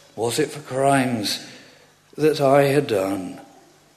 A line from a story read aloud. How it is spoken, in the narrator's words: He groaned